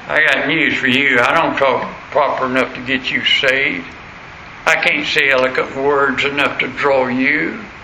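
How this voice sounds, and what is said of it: American Southern accent. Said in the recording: “That's my southern accent”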